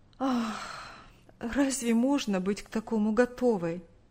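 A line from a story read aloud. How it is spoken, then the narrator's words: Sighing answer, mother. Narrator (Russian): Вздохнув, ответила мать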